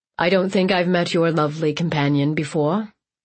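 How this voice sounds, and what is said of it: Powerful voice, slight unplaceable accent. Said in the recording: “His voice carried power in it ... his slight accent, one I couldn't place”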